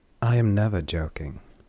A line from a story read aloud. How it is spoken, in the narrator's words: Derry said calmly